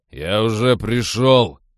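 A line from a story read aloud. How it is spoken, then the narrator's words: Barked shout. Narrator (Russian): рявкнул он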